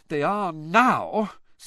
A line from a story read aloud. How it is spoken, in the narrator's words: said Hermione in an exasperated voice